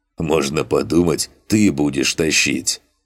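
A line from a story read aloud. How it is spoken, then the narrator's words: Hmph. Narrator (Russian): хмыкнул тот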